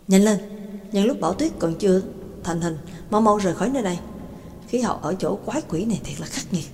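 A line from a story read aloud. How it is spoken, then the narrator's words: Muttering. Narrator (Vietnamese): McKin lẩm bẩm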